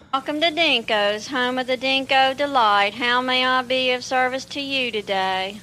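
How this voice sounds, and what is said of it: Southern American accent. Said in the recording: “It's like a southern accent.”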